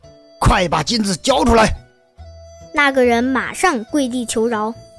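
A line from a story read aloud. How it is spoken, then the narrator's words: Stern harsh command. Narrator (Chinese): 厉声说道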